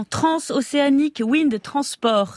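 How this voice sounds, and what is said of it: Put-on foreign accent. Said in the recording (French): “Je prends mon plus bel accent.”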